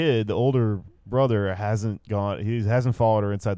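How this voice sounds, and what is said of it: Usual voice. Nothing is said of it.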